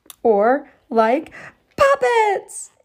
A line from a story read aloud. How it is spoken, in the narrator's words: exclaimed Emerson